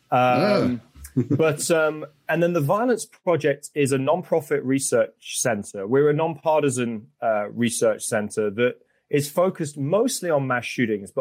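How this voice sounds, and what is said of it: British accent. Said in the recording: “You might tell from the accent, I'm not originally from there. I'm originally from the UK.”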